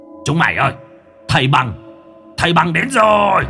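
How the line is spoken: Sudden shout. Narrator (Vietnamese): lão đại hét lên một tiếng

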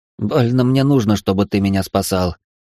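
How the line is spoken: Irritated inner thought. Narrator (Russian): раздраженно подумал Алекс

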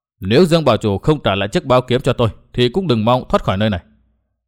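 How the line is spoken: Cold. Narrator (Vietnamese): Nguyên Bình lạnh lùng bảo

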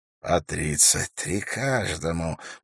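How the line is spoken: Savoring whisper. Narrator (Russian): прошептал вождь наслаждаясь этими цифрами

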